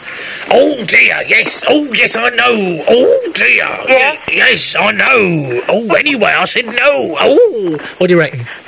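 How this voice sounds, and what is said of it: Imitates another person's voice. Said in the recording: “my Up Pompeii impersonation”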